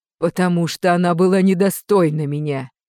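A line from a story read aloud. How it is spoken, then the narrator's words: Dragoness growl. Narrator (Russian): прорычала драконица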